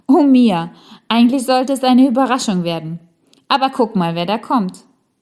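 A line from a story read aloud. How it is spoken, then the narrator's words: Loud laughing. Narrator (German): lachte Rosalie ganz laut und sagte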